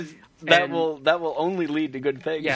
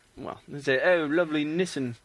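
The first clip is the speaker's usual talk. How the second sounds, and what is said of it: Put-on English accent. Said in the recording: “you should just do your English accent just like all the time on the podcast ... It's so good.”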